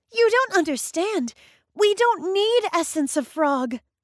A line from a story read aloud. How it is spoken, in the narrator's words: cried Matilda